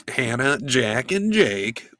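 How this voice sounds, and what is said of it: Imitates another person's voice. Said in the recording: “my Gabby impression”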